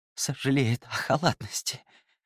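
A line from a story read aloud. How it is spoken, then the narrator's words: Breathy exhale. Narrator (Russian): выдохнул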